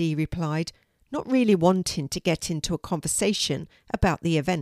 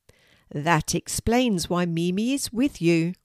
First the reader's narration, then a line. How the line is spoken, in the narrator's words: replied Mrs